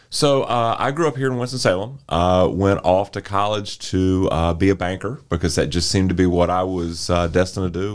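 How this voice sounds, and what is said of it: Polished radio-style voice. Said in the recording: “You have such a beautiful radio voice”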